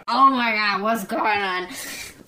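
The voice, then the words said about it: Impression of Jamie Lee Curtis. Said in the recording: “That's a really good impression of, yeah, Jamie Lee Curtis”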